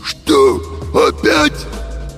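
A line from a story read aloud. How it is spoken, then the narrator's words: Hoarse cartoon-wolf voice. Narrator (Russian): просипел Фима голосом мультяшного волка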